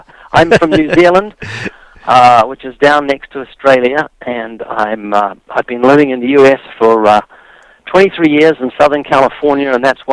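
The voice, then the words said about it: Strong New Zealand accent. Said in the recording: “Well, we love your accent... you didn't lose much accent... you got a lot of accent still”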